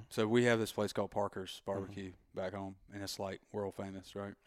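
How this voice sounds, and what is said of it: Thick Southern US drawl. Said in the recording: “I have this, like, super thick southern drawl.”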